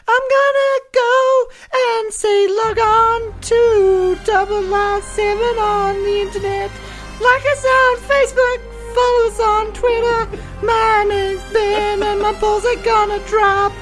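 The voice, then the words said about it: High falsetto voice. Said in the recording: “close this out in a bit of falsetto”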